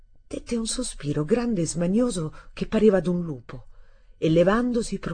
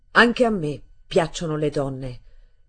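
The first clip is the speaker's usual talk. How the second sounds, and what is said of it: Triumphant, menacing declaration. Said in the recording (Italian): “in accento di trionfo e di minaccia, come sfidasse all'ultimo sangue chiunque ardiva a contestare la sua parola”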